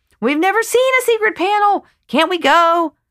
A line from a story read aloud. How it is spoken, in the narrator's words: the kids raise the stakes, screaming